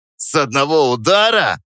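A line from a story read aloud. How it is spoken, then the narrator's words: Snorting, laughing. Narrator (Russian): фыркнул главарь, вытирая слезы от смеха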